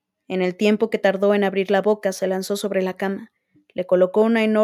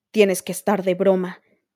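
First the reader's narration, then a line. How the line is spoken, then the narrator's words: Growling. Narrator (Spanish): gruñó Arquero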